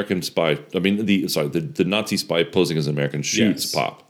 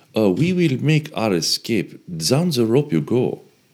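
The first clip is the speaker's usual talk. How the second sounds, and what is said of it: Poor put-on French accent. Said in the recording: “I do a terrible French accent.”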